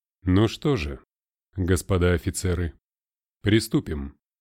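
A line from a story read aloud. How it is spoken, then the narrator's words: Neutral, guarded tone. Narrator (Russian): сказал полковник нейтральным тоном, нисколько не выдававшим его истинных чувств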